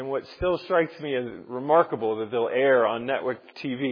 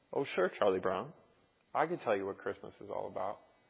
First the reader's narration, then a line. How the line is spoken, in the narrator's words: calmly replies